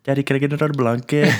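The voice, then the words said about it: Put-on thick Filipino accent. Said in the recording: “that wicked Filipino accent... that thick accent”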